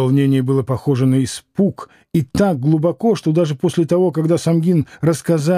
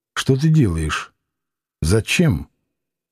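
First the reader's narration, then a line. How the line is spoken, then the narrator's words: Quiet hoarse question. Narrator (Russian): она тихо, с хрипотой в голосе спросила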